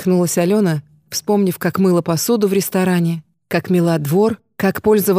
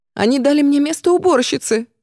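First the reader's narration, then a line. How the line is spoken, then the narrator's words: Shrieked. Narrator (Russian): взвизгнула Валерия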